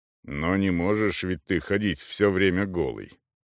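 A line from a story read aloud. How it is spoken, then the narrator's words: Disapproving grumble. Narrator (Russian): проворчал Эйп с явным неодобрением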